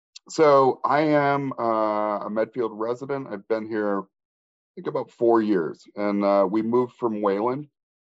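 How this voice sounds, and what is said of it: Slightly crackly voice. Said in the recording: “my voice is a little crackly. I'm getting over my first wave of COVID”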